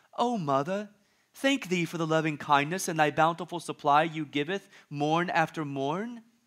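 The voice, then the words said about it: Put-on British accent. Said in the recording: “I'm not sure why all of your kids have British accents.”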